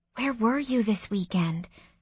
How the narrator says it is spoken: She asked in a hushed voice

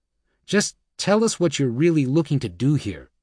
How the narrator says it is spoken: he said

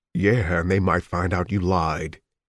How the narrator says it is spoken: he added dryly

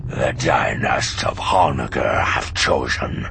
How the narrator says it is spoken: he growled

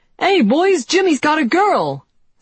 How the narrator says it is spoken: someone shouted

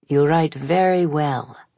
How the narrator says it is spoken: she said, with an accent I didn't recognize, but anyway far from Neapolitan

